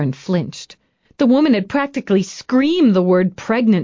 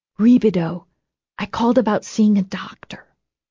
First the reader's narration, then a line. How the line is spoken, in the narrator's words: whispered